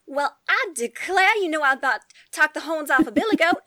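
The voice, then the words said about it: Put-on Southern Belle accent. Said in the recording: “the only person in our family that has a Southern Belle accent ... she talks just like that”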